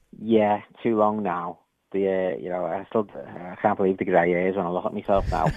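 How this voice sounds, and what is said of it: Liverpool accent. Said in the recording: “you've got a Liverpool accent there”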